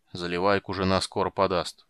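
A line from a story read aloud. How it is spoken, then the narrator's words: Gruff mutter. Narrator (Russian): буркнул почтмейстер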